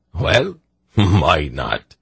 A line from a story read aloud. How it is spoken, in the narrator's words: He laughed again delightedly